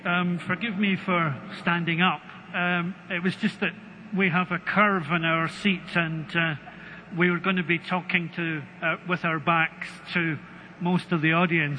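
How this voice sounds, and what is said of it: Scottish accent. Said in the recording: “You probably guess from my accent that I come from Scotland”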